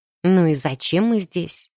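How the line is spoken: Sigh. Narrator (Russian): вздохнула я

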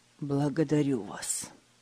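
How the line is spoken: Hoarse. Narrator (Russian): хрипло ответил Фридрих

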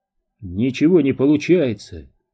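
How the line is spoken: Irritated remark. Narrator (Russian): раздраженно заметил Дью

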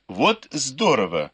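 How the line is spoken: Exclaimed. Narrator (Russian): воскликнула Фэнзе

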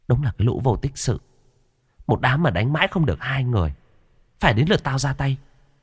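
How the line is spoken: Muttered. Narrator (Vietnamese): Cô gái vẫn cứ ngồi vắt vẻo ở trên cành cây, lẩm bẩm

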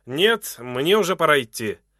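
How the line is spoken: Loud answer. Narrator (Russian): ответил громко

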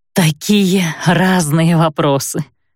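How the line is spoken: Hoarse. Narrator (Russian): прохрипела она

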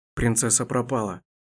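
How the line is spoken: Muffled hoarse whisper. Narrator (Russian): долетел до Дайрана приглушенный хриплый шепот

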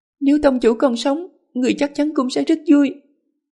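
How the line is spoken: Happy tearful, smiling. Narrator (Vietnamese): Đường Tiểu Đường những giọt nước mắt hạnh phúc, mỉm cười mà nói

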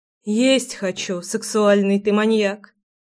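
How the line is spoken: Sighing. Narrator (Russian): вздохнула Руслана

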